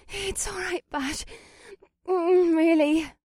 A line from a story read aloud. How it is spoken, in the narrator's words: Alyssa panted